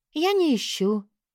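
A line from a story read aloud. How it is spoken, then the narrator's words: Sigh, smiling. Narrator (Russian): Вздохнула и улыбнулась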